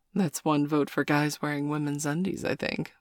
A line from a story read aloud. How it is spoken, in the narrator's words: Mum laughed